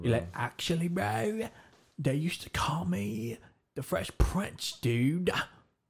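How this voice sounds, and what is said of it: Mocking bro-ish Chad voice. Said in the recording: “Said it like a Chad. ... You're like, dude, actually.”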